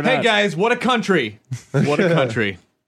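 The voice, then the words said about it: Yakov Smirnoff impression. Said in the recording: “You're slipping into Yatsuk Smirnoff.”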